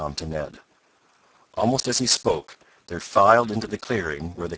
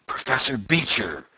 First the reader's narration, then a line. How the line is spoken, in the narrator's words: gasped the young inventor